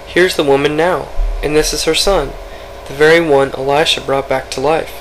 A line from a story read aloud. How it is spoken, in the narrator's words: Gehazi exclaimed